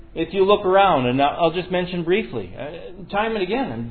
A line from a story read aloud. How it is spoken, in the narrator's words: David cried out